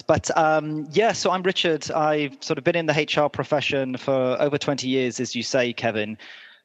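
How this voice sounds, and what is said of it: British accent. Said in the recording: “As you can probably tell from the accent, I'm originally from the UK.”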